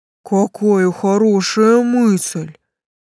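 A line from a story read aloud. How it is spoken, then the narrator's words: Respectful boom. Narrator (Russian): с уважением прогудел Тесл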